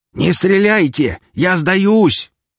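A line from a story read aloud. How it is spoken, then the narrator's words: Shout from below. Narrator (Russian): закричали снизу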